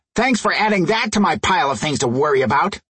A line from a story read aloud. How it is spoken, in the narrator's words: Twinko snapped